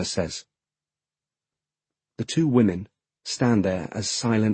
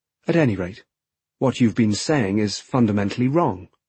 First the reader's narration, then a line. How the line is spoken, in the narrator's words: Oshima says, calmly yet emphatically